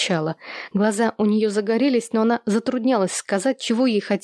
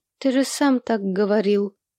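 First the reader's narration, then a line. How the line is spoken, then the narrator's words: Timid. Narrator (Russian): робко напомнила ему Луи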